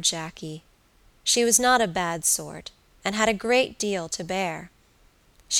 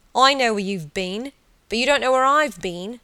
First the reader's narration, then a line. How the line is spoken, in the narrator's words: he had exclaimed, with peals of laughter